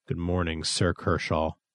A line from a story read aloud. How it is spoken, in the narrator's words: muttered Thistle